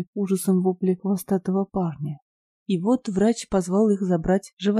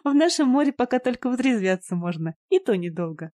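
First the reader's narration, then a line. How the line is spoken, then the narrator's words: Laughing, young woman. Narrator (Russian): рассмеялась девушка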